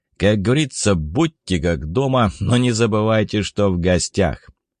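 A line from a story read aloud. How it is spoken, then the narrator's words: Laughing. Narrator (Russian): Расхохотавшись, охранник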